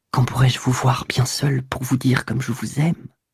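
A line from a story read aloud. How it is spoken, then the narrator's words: Very quiet whisper. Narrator (French): Elle prononça tout bas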